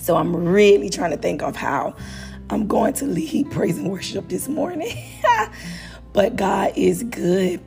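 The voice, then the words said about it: Hoarse, strained voice. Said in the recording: “My voice is a little hoarse this morning. I did a lot of singing this weekend. ... your girl voice is gone.”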